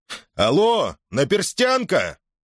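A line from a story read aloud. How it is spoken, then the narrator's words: Shouting. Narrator (Russian): крикнул человек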